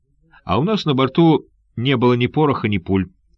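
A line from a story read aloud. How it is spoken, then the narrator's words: Plain. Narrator (Russian): ответил молодой человек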